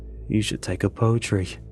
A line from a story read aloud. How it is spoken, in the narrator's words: Amir mutters